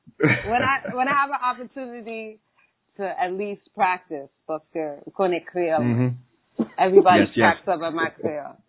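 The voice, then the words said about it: New York accent. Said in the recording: “We also hear that New York in your accent... There's no denying you are a New Yorker.”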